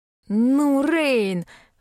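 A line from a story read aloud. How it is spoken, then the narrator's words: Roared. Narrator (Russian): взревел Клеменс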